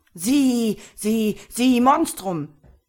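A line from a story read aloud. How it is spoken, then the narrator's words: Hissing. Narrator (German): fauchte er den Kartoffelkopf an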